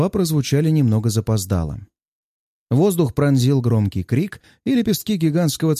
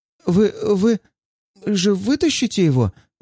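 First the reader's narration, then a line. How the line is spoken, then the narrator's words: Stammering young woman. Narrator (Russian): заикаясь, обратилась фигуристая милашка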